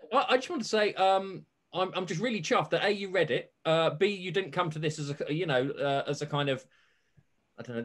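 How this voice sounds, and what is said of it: British accent. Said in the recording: “an irritating, you know, British accent”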